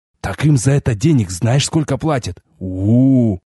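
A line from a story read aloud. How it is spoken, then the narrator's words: Drawn-out, drawling. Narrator (Russian): протянул Виан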